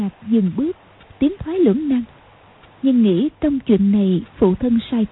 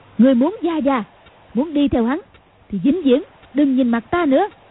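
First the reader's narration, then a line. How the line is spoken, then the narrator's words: Shouting. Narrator (Vietnamese): Cầu Thiên Xích quát lên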